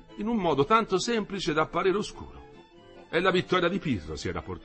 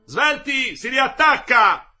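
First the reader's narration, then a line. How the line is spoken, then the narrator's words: Shouted. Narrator (Italian): gridò Nardini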